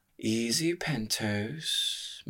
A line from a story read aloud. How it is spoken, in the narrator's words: murmured Katerina